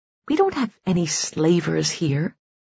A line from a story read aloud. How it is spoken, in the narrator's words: muttered Suli